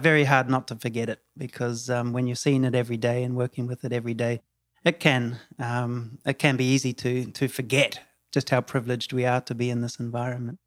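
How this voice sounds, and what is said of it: New Zealand accent. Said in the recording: “I don't think that's a Tulum accent you have... I'm from New Zealand. Born and bred New Zealand.”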